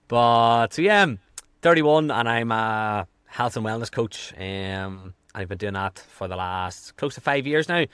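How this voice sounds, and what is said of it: Strong Irish accent. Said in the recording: “I am from Ireland ... my accent's very strong”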